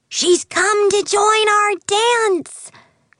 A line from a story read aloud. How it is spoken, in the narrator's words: cried a third fairy